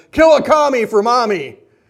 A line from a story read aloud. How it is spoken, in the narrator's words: the sergeants yelling